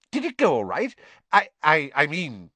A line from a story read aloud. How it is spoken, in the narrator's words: he faltered